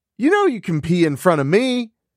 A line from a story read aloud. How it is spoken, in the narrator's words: Elena shouted